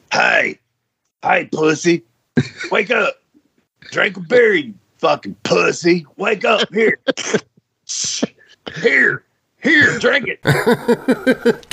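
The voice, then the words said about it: Impersonation of a friend. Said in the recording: “do the impersonation of him when he would try to wake you up at 7 a.m.”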